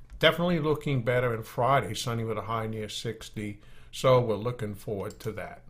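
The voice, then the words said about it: Maine accent. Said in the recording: “I probably mangled that with my Maine accent”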